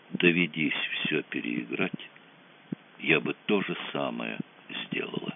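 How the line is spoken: Quiet. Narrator (Russian): сказала она тихо

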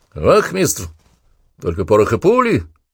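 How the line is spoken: Shouting. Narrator (Russian): крикнул Данилов

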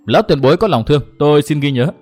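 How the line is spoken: Smiling. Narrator (Vietnamese): Trác Ngọc mỉm cười

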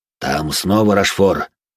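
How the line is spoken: Worried voice. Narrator (Russian): произнес обеспокоенным голосом

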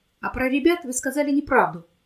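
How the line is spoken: Shouting. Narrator (Russian): крикнул

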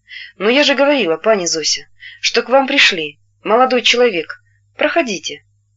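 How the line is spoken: Calm, gentle woman. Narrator (Russian): Она сказала спокойно и ласково

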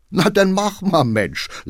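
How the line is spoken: Laughing. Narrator (German): lachte der Chauffeur

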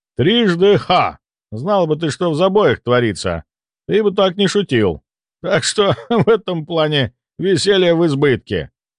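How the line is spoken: Short laugh. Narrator (Russian): хохотнул Ивар

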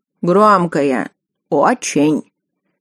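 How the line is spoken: Quiet cook reporting. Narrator (Russian): так же тихо доложил повар

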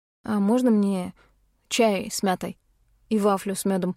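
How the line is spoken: Young man's timid request. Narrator (Russian): робко попросил парень

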